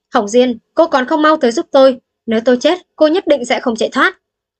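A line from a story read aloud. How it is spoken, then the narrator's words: Desperate repeated shouting. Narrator (Vietnamese): Bách Độc lão nhân không thể chống cự được nữa, liên tục hét lên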